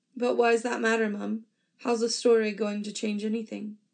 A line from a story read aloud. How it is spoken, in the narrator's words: She chuckles